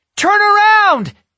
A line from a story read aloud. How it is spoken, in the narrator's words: exclaimed Yasmin